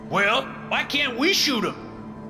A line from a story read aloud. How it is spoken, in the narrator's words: Charlie McRae shouts